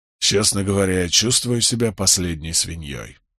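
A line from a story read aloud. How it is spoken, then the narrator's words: Muttered. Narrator (Russian): пробормотал он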